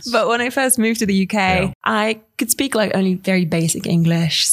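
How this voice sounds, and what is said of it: Mixed English-sounding accent. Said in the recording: “your English accent is more prominent ... It's a bit of a mix. People say I sound Australian”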